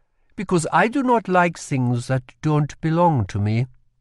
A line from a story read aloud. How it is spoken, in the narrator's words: said